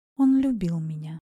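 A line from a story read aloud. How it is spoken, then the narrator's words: Quiet, pained. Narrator (Russian): тихо сказала Лилит, и в ее голосе слышалась боль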